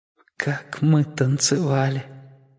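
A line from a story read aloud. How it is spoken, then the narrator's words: Dying whisper. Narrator (Russian): прошептала она перед тем, как уйти из этого мира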